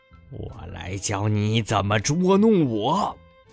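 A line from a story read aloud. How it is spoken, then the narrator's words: Elephant, roaring. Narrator (Chinese): 大象咆哮着说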